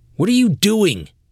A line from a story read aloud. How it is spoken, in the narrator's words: the officer yelled